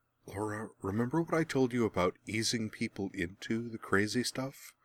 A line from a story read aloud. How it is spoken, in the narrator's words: Merwin muttered